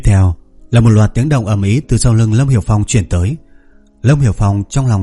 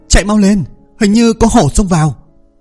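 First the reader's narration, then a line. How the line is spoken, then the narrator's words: Loud alarmed shout. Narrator (Vietnamese): tiếng của Vương Mộc Dương hét lớn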